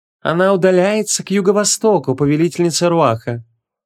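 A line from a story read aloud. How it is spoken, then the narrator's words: Sweet pleasant voice. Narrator (Russian): очень приятным голосом сообщил Логран, сладко улыбаясь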